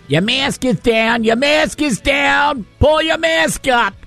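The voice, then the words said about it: Imitated New York accent. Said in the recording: “this frightening woman with a New York accent.”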